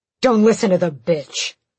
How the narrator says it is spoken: the commander snapped

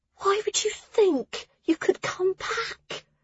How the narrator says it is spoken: Hessa whispered

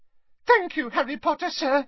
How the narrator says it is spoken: squeaked Dobby happily

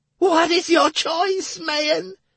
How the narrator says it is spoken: Commandant cried again

